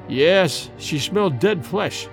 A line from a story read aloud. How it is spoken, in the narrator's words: replied Dorda gloomily